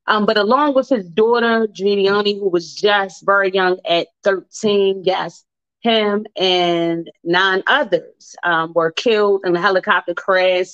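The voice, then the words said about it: Baltimore accent. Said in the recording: “my Baltimore accent”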